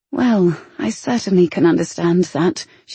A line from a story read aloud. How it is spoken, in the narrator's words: she said quietly